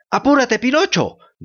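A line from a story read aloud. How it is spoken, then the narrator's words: Goat's bleating shout. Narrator (Spanish): gritaba balando la bella cabrita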